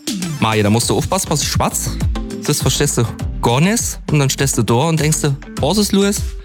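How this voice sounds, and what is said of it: Speaks in a local German dialect. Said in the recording (German): “Auf Platt? ... Ich kann nur das Steinmicher Platt, gell?”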